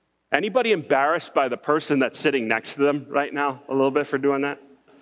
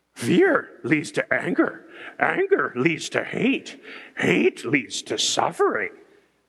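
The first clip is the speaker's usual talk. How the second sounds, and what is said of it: Yoda impression. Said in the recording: “In your best Yoda voice”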